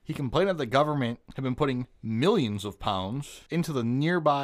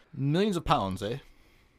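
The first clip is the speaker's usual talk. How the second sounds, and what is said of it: Attempted British accent sounding Canadian. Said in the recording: “I probably should have been reading that with a British accent ... That wasn't right. That was fucking Canadian.”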